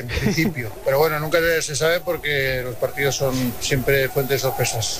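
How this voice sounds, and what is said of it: Impression with Aragonese (maño) accent. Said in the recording (Spanish): “me ha salido acento mañito ... Pero mucho, ¿eh?”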